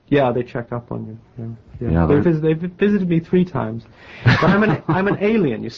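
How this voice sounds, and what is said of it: Almost English-sounding accent. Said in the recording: “You have an English accent, almost an English accent. ... It probably sounds as if I have an English accent ... I think I probably have a West Indian accent.”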